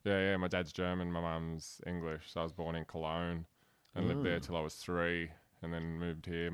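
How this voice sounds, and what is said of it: Broad Australian accent. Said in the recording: “you've got that great broad accent”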